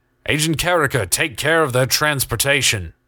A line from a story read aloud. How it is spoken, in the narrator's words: Keegan shouted